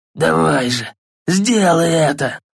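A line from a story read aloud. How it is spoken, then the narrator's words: Hoarse, smirking. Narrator (Russian): прохрипел Бальдр с кривой ухмылкой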